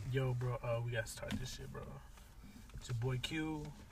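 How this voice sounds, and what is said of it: Rough, damaged-sounding voice. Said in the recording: “my voice is fucked up, but I be smoking ... You sound like DJ Envy.”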